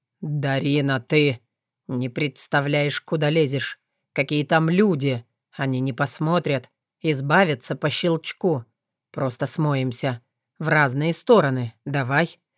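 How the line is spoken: Flat, toneless voice. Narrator (Russian): произнес он почти бесцветным голосом

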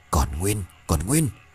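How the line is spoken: Muttering. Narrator (Vietnamese): lẩm bẩm

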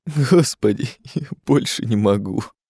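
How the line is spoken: Muffled sobbing. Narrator (Russian): зарыдал Жером, уткнувшись Ларсу в плечо

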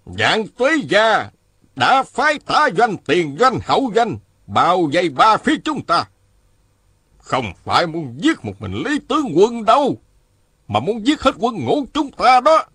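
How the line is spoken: General speaking loudly. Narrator (Vietnamese): Một tướng quân lớn tiếng nói

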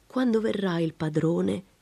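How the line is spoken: Plain. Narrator (Italian): disse Ursula

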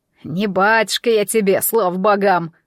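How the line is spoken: Scoffing snort. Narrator (Russian): хмыкнул Кощей

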